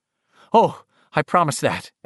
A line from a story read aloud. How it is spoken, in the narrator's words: Eddie said eagerly